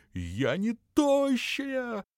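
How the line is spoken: Yelling, female. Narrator (Russian): завопила она

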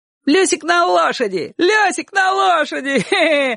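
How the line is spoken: Children shouting, laughing. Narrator (Russian): кричали соседские ребята и громко смеялись

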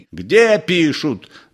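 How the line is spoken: Shouting. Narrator (Russian): закричал секретарь

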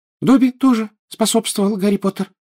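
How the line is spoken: Indignant squeak. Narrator (Russian): пропищал он, возмущенно

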